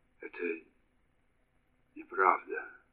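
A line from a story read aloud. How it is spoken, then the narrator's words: Stammering, very quiet mutter. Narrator (Russian): пробормотал он, запинаясь, и очень тихо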